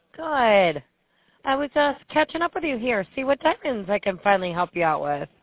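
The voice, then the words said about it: Strong Western New York accent. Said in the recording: “My Western New York accent comes through pretty strong”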